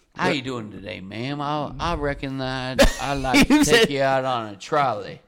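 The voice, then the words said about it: Put-on American Southern accent. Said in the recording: “How would you do a Southern accent? ... That's pretty good.”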